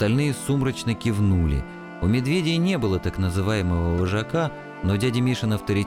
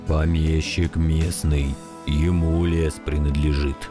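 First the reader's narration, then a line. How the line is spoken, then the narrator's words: Dull muffled reply. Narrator (Russian): глухо ответил дядя Миша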